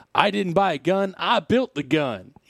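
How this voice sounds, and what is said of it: Put-on accent. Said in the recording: “I don't know why I'm assuming that accent, but I am.”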